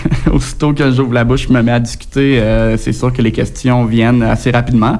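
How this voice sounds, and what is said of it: Speaks with a distinctive accent. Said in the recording (French): “mon accent, c'est une carte de visite pour les gens”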